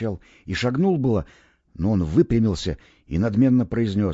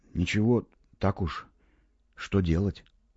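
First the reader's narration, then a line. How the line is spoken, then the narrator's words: Uncertain quiet reply. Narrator (Russian): Я не знал, что ответить, и сказал негромко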